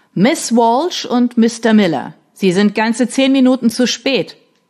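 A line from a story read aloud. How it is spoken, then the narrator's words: Thundering voice. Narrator (German): donnerte die Stimme von Mr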